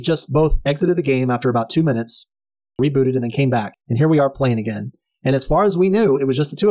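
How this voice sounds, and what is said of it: Usual voice. Nothing is said of it.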